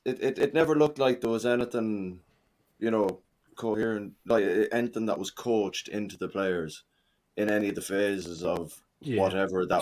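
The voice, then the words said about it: Scottish Glaswegian accent. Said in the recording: “Sorry, I don't understand Scottish. ... What sort of Glaswegian accent is that?”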